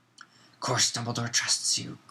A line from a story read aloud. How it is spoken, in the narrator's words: growled Moody